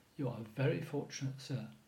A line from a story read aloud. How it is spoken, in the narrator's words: the butler murmured